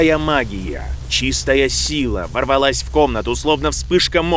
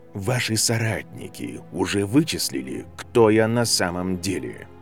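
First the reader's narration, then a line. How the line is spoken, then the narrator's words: Deceptively calm question. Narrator (Russian): Вопрос прозвучал обманчиво спокойно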